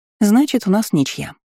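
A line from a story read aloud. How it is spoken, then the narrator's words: Cheerful. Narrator (Russian): весело произнесла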